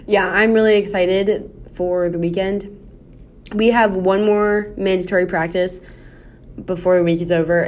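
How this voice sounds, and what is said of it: Tired, low-energy voice. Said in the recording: “I'm just so tired ... my voice may not be as like, woohoo.”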